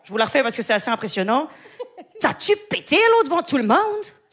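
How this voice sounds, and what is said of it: Put-on Québécois French accent. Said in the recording (French): “l'accent québécois ... C'est le québécois.”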